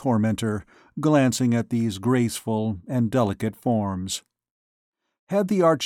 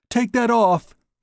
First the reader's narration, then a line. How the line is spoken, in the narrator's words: she cried angrily